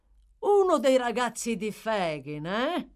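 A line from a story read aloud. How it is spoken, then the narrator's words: Exclaimed. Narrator (Italian): esclamò Toby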